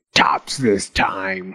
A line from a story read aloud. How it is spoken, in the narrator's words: he growled